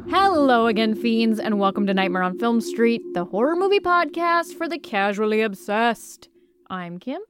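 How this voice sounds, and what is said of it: Polished radio announcer voice. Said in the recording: “I'm trying to do very radio voice, have you noticed?”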